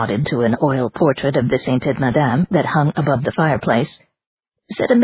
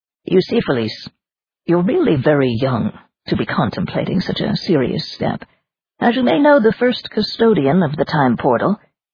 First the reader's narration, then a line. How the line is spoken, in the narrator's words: Kindly, he said